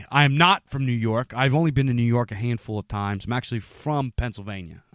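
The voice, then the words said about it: Pennsylvania accent, Philly-like. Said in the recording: “a lot of people guess by my accent... you hear my accent and you think, oh, well, you know, he's a New Yorker... I guess our accents are kind of Philly sounding”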